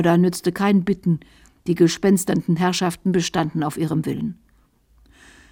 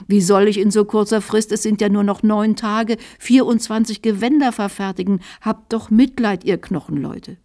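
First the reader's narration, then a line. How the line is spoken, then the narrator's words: Whining journeyman. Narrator (German): jammerte der Gesell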